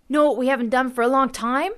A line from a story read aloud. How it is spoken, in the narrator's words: I blurted out